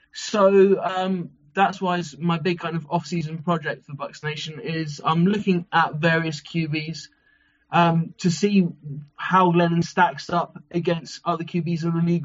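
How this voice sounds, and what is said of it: London English accent. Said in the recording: “you're getting clowned for your accent... I'm London-born and bred”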